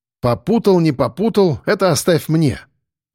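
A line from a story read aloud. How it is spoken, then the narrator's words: Smirking grunt. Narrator (Russian): хмыкнул я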